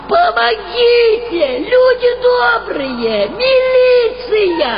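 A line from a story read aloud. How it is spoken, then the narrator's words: Screamed. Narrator (Russian): Марина завопила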